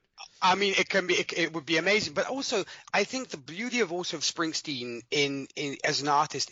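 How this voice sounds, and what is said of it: British-sounding English accent. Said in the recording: “my accent might say different... I have not retained the South African accent... this should we say British accent works nonetheless on radio too”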